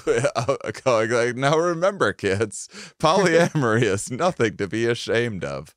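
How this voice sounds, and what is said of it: Impression of the other speaker. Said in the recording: “doing an impression of you”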